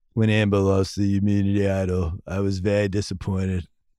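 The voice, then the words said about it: Imitates another person's voice. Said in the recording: “I can only imitate Boston Rob, which is the same imitation as my Brett Brown ... Brett Brown on Survivor talking about Amber ... That's actually more of a Boston Rob.”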